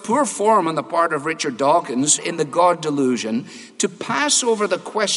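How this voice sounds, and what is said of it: Usual voice. Nothing is said of it.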